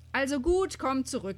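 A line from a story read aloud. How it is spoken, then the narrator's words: Called out. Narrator (German): rief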